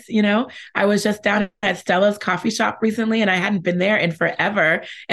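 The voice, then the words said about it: Hoarse, worn-out voice. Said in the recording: “my voice is going a little bit too.”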